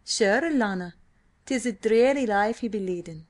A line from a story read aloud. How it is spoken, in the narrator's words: chuckled O'Hara